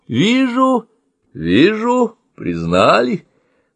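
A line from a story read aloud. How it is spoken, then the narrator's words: General's good-natured explanation. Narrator (Russian): добродушным голосом пояснил генерал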